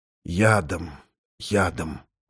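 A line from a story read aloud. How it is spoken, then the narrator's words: Whisper. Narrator (Russian): прошептал я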